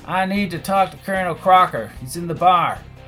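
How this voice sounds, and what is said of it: Put-on Southern American accent. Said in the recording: “I switched to a southern accent.”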